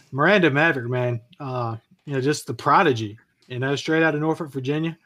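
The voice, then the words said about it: Delmarva regional accent. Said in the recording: “Love how you say Norfolk. Norfolk, Virginia. ... He's got that Delmarva accent ... It's sweet.”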